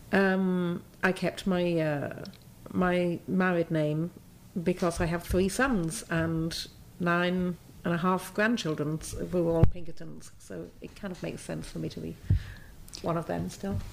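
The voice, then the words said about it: British English accent. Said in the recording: “you obviously have a British accent ... I'm sounding very English again”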